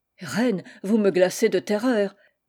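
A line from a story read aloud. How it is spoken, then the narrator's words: Stammering. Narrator (French): balbutia l'Italien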